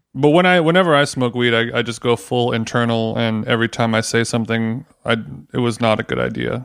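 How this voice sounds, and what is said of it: Monotone, flat speaking voice. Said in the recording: “I kind of have like a monotone voice”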